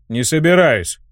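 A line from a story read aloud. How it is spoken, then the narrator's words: Snapped. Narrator (Russian): огрызнулся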